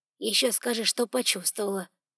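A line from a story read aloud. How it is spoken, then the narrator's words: Grumbling. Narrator (Russian): проворчал доктор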